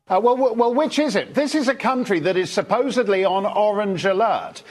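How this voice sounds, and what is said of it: British accent. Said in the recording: “he has a British accent, so he sounds more sophisticated”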